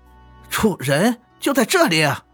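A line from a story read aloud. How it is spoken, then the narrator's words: Laughing. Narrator (Chinese): 莱阳生笑着说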